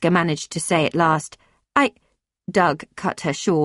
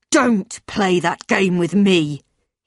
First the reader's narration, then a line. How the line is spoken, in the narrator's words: growled